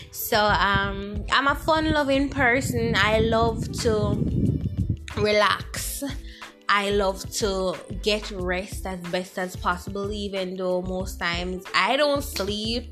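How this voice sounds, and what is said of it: Jamaican accent. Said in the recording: “I'm Jamaican, by the way. You'll hear my accent”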